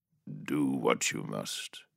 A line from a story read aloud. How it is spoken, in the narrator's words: Zaven said eventually, his voice heavy